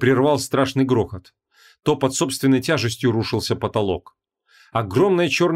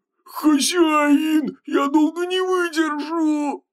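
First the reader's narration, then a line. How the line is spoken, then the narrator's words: Wretched howl. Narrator (Russian): взвыл несчастный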